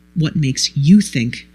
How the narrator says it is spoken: said quietly

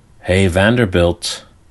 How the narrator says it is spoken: Lawrence's voice was calling quietly from behind, like the voice of God

